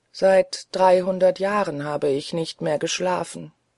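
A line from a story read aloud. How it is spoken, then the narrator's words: Sad ghost. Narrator (German): sagte das Gespenst traurig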